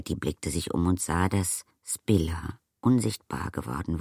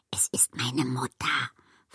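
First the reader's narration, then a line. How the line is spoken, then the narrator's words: Whispered. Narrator (German): flüsterte sie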